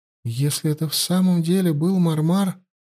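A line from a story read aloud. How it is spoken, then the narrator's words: Timid woman. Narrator (Russian): робко произнесла она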